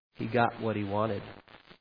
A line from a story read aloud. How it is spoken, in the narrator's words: The nurse replied rather quietly